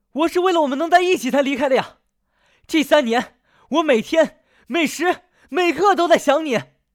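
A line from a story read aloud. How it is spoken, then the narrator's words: Frantic hoarse shout. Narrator (Chinese): 陆和欢急了，嘶声朝林燕大喊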